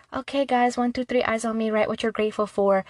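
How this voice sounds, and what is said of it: Kindergarten teacher voice. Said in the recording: “you sounded like my teacher in kindergarten. You know, the teachers in pre-K... I've perfected my teacher voice.”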